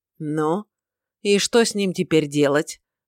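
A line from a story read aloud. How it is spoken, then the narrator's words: Gloomy question. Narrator (Russian): мрачно поинтересовался Шамит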